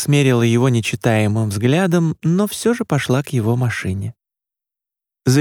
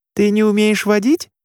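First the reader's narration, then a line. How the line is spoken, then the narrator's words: Squeaking. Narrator (Russian): пискнула Маша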